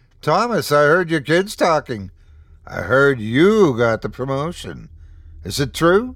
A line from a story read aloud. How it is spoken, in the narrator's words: exclaimed